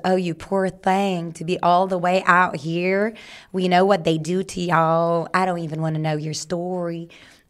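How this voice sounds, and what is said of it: Good put-on Southern US accent. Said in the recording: “that was a very good Southern accent.”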